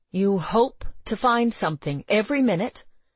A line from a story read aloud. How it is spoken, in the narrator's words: he said urgently